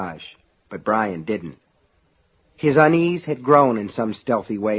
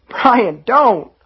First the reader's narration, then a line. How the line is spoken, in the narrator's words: Sean cried, beginning to weep